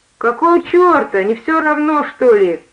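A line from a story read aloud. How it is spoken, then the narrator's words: Exclaimed. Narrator (Russian): воскликнул он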